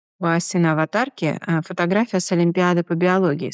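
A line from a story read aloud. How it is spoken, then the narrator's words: Calm. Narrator (Russian): спокойно ответил Глеб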